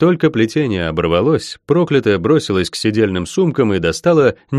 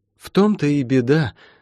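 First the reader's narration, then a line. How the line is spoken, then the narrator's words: Sigh. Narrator (Russian): вздохнула Метифа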